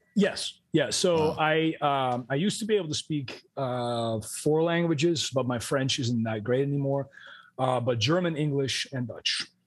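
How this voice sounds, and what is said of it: American, Florida-sounding English accent. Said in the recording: “I hear your voice for the first time. I'm like, is this motherfucker from Florida or something? Yeah. Where is this accent coming from?”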